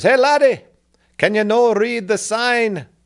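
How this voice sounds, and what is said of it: Put-on Irish accent. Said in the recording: “do my best impersonation... impersonate someone from Ireland”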